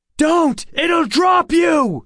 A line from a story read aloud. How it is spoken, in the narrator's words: I shouted